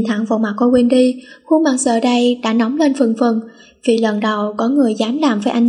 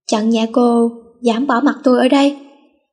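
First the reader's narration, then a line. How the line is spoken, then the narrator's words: Laughing louder. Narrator (Vietnamese): có thêm chỉ là tiếng cười to hơn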